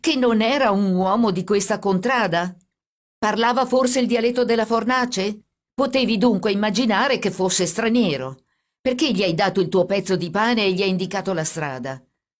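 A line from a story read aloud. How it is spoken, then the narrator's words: Shout. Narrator (Italian): gridò il carabiniere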